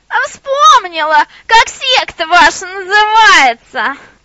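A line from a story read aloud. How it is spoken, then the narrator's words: Shouting from window. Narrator (Russian): закричала из окошка Баба Яга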